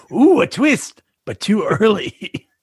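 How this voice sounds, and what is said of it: Imitates a cartoon show's voice. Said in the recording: “that was your accent? ... That was my impersonation of the way Robot Chicken does.”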